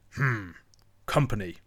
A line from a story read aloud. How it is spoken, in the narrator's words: The badger grunted